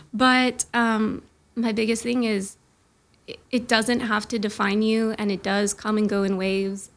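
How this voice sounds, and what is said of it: Shaky, nervous voice. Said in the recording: “my voice is super shaky because I'm anxious”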